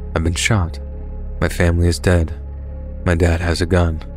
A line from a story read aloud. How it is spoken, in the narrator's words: saying in the most monotone voice ever